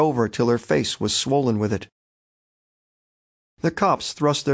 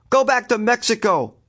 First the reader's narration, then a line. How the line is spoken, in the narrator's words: shouted a man